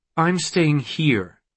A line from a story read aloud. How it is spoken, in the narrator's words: she said